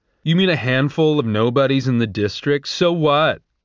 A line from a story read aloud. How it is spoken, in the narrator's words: Arachne boomed